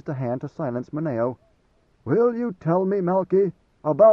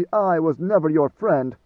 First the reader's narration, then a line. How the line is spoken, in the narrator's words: Maneo snapped